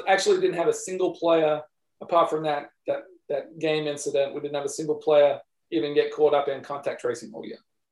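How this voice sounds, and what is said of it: Australian accent, somewhat faded. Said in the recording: “I'm sure all the listeners can already hear the Australian accent ... it's a pretty dodgy Australian accent, I will say. Not a good one.”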